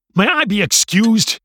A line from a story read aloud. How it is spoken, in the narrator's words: barked